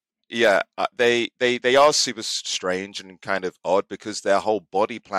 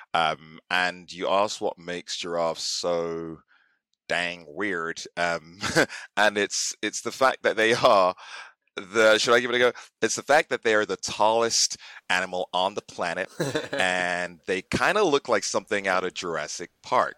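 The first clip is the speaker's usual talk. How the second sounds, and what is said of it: Imitates another person's accent. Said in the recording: “I don't know how good that is. Probably destroyed your accent. ... No, perfect. That was so good.”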